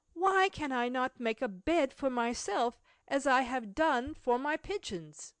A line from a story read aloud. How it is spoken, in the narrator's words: he exclaimed